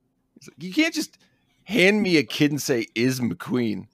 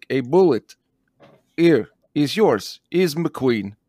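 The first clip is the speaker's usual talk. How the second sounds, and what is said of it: Put-on Russian accent. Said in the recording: “Mickey Rourke has a Russian accent because of Whiplash”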